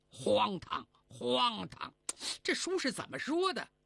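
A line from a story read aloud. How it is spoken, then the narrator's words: Quiet voice. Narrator (Chinese): 声音虽然不大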